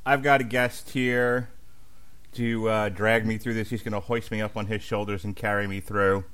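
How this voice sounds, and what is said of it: Slightly off voice, mild speech impediment. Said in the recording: “my voice is a little off, a little speech impediment. I've had my wisdom teeth out”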